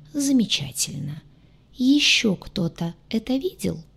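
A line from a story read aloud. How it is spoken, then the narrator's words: Almost gentle question. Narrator (Russian): почти ласково вопросил Кэп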